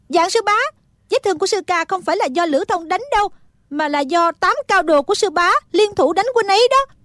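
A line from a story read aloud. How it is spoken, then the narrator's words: Loud, furious outburst. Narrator (Vietnamese): Thích Phương đã tức giận cành hông, lúc này nhịn không được nữa, lớn tiếng nói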